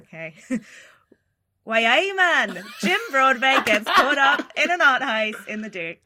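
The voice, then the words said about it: Poor attempt at Newcastle accent. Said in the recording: “Newcastle... I tried the accent... A for effort, D for attainment.”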